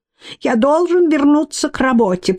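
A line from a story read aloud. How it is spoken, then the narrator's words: Thin squeaky voice. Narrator (Russian): пропищал он тоненьким голоском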